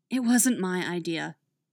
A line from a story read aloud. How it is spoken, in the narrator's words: Dinah sighs